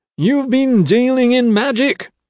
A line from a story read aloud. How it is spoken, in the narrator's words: Bloxham hollered